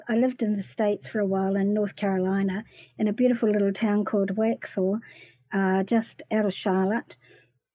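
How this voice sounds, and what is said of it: New Zealand accent. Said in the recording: “in the States, my voice was quite exotic ... my accent ... when I came back to New Zealand”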